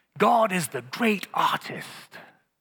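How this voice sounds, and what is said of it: Put-on English accent. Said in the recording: “because he had an English accent, I'll try it”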